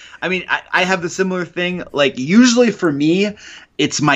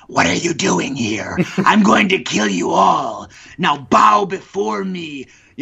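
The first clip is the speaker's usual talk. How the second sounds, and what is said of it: Raspy, gravelly evil character voice. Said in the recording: “my evil voice, you know, like my very raspy, gravelly ... that voice, that really raspy, gravelly, evil voice”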